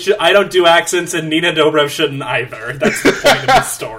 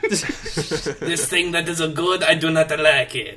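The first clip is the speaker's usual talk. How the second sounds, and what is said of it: Attempted French accent, sounding Italian. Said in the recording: “doing a French accent ... That was more Italian.”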